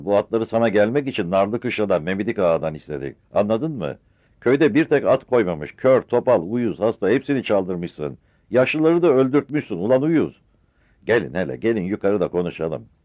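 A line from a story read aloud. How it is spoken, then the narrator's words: Shout. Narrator (Turkish): diye bağırdı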